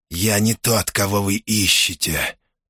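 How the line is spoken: Hiss. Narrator (Russian): прошипел убийца

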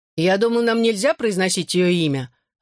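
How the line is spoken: Exclaiming into recorder. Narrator (Russian): воскликнул Алфи в портативный диктофон

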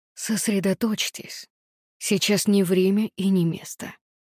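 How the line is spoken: Whisper. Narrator (Russian): прошептал он

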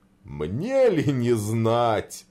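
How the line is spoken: Laughing. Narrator (Russian): засмеялся Дед Мороз

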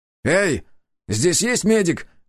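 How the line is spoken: Shout. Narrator (Russian): крикнул

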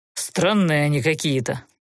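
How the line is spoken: Grumbling mutter. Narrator (Russian): пробурчал Фалер

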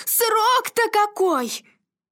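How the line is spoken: Shouted. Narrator (Russian): Мария Ивановна закричала

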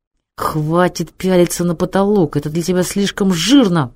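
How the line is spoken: Sneering hiss. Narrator (Russian): прошипел Мангуст, кривя бледные губы

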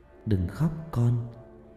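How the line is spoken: Soft, hushed voice. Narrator (Vietnamese): tiếng nói khe khẽ

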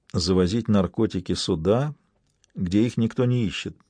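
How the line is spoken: Quiet. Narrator (Russian): тихо произнесла судья Курьева

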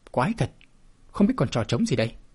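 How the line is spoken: Puzzled muttering. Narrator (Vietnamese): Biện Bích Nghi nhíu mày lẩm bẩm

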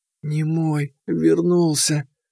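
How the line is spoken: Whisper. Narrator (Russian): прошептала она

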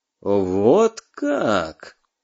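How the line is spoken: Drawn-out, interested. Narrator (Russian): заинтересованно протянул Клюги

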